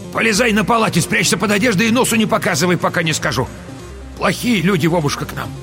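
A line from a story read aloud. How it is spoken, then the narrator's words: Grandmother shouting urgently. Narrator (Russian): крикнула внуку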